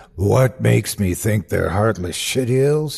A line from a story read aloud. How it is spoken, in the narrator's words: snarled